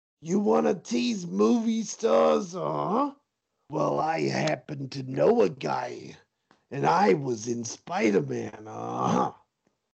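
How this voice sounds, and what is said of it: Throat-straining imitation of another person's voice. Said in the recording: “that impression kills my throat, so I'm going to drop that accent”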